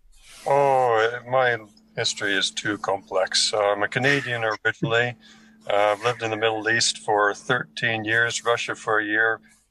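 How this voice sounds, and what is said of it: North American English accent. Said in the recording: “I believe it's an American accent”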